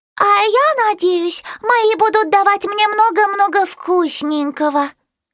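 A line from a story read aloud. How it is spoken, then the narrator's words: Squeaky puppy voice. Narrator (Russian): пискнула Пиппа, самая обжора из всех щенков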